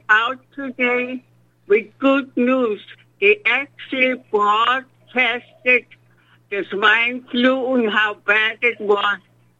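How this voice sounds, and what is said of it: Thick foreign accent. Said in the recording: “You've got a really thick accent, and it's real hard to track and follow what you're saying.”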